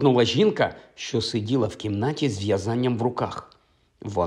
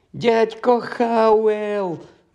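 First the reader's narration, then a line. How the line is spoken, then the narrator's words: Shrieking. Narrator (Ukrainian): верещала вона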